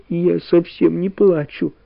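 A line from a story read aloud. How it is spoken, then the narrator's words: Quiet sob. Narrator (Russian): всхлипнула потихоньку Валя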